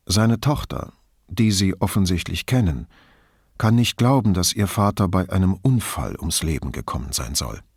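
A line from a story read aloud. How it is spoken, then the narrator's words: Hesitant. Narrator (German): antwortete er zögernd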